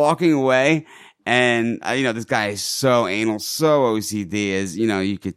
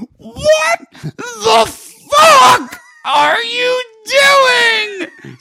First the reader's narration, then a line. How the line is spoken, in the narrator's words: Screaming